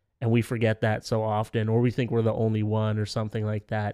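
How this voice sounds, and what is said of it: Usual voice. Nothing is said of it.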